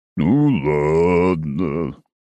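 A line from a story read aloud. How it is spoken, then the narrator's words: Sad drawl. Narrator (Russian): грустно протянул лунный пчел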